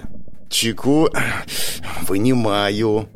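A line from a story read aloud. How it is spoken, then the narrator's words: Hissed through teeth. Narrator (Russian): сквозь зубы прошипел я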